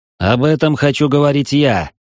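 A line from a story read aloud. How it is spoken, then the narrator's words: Barked. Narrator (Russian): рявкнул Фернан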